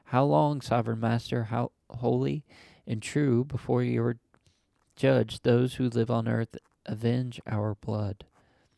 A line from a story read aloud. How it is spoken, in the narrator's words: They cried